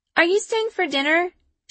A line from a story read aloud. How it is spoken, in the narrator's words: she asks when her giggles subside